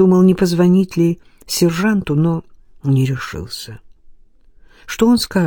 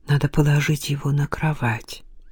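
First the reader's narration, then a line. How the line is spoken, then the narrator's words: Quiet. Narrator (Russian): тихо сказал Илья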